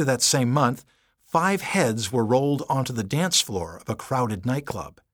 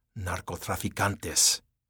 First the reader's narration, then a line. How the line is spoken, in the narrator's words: he muttered